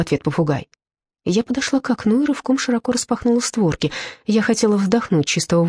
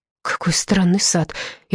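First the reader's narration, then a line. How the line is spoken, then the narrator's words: Amazed sigh. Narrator (Russian): изумленно вздохнула я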